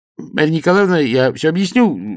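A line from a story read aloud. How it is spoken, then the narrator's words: Flustered babbling. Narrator (Russian): залепетал фельдшер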